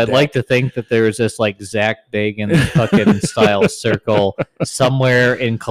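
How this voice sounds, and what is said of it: Usual voice. Nothing is said of it.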